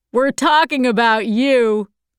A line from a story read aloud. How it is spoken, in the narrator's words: Arthur said, laughing